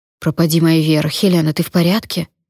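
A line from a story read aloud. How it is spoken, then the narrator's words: Plain. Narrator (Russian): спросила меня Эмилия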